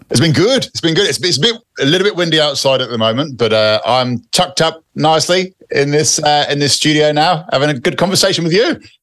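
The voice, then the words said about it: British accent. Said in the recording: “I can hear your British accent.”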